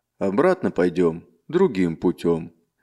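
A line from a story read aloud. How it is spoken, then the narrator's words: Calm reply. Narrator (Russian): спокойно отвечал Марк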